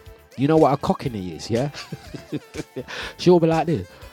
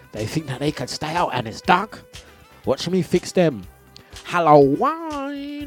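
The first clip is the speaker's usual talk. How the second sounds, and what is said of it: Put-on Cockney accent. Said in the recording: “my mum will do this thing where she starts talking like a cockney”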